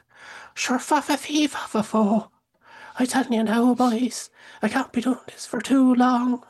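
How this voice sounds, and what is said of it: Exaggerated bad Irish accent. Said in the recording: “he's Irish in it. And my God, the accent ... this is a horrible Irish accent”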